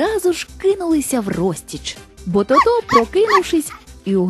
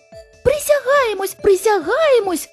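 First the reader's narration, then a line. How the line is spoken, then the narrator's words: Squeaky mouse voices shouting. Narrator (Ukrainian): вигукнули придворні миші писклявими голосами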